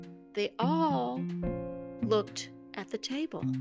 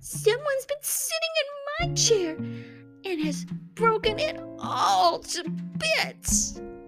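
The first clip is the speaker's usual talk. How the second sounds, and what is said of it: Tiny, small baby-bear voice. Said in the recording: “cried the baby bear in his wee little voice.”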